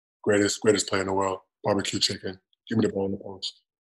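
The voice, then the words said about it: Shaquille O'Neal impression. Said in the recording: “Can you do anyone else on TNT? I mean, you know, Shaquille's got a pretty distinct voice.”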